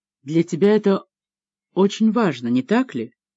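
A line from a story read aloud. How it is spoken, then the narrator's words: Very quiet. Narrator (Russian): Адриана очень тихо произнесла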